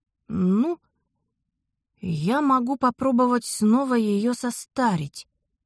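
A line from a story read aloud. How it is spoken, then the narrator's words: Thoughtful suggestion, magician. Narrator (Russian): задумчиво предложил маг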